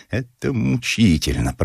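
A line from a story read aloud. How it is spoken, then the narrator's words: Through gritted teeth. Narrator (Russian): процедил сквозь зубы художник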